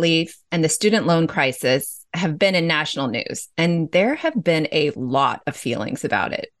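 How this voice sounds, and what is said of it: Usual voice. Nothing is said of it.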